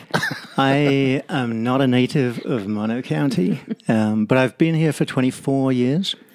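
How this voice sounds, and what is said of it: English accent. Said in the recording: “you've got a bit of an accent ... My accent is English”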